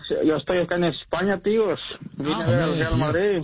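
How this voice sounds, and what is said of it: Put-on Spanish accent from Spain. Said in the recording (Spanish): “Tío, ya entonces te ha pegado el acento.”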